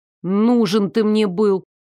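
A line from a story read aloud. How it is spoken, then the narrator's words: Snort, voice trembling with hurt. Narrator (Russian): снова фыркнула я, но голос вдруг неожиданно даже для меня дрогнул от обиды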